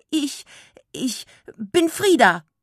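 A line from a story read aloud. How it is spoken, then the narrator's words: Panicked squeak. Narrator (German): quiekte Frieda voller Panik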